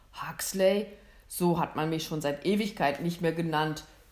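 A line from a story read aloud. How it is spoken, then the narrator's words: Mocking hunter. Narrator (German): höhnte der Jäger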